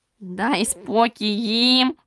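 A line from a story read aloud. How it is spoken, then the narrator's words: Breathless hoarse rasp. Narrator (Ukrainian): Засапано прохрипів він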